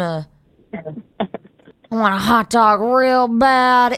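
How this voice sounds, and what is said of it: Jennifer Coolidge impression. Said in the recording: “a really good impersonation ... That wasn't even that good.”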